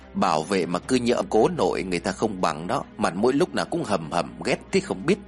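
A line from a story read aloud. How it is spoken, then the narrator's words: Muttering. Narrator (Vietnamese): Tiên lẩm bẩm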